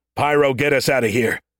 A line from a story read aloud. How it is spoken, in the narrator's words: Stacker bellowed through the comm